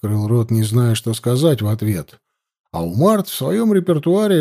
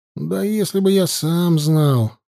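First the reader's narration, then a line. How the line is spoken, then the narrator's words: Sighing reply. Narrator (Russian): вздохнув, ответил я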